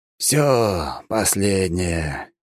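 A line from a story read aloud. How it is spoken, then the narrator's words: Surgeon's relieved exhale. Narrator (Russian): Хирург облегченно выдохнул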